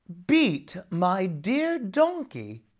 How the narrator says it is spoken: exclaimed Jamie

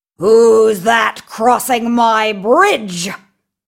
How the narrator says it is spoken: roared

